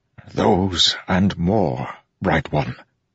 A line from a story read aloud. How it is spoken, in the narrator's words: Kadash whispered, face drained of color